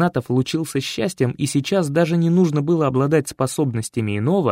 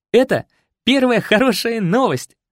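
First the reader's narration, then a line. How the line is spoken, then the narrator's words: Short chuckle. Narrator (Russian): хохотнул Артем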